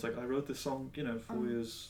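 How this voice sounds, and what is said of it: Poor impression with British accent. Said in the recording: “Why is David Byrne British? That's like the third time you've done that. ... my terrible David Byrne impression ... David Byrne is British.”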